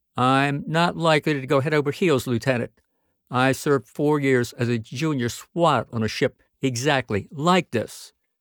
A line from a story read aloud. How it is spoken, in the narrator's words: He said evenly